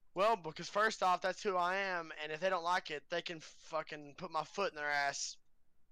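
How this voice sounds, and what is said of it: Country accent. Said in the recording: “I have that country-ass accent”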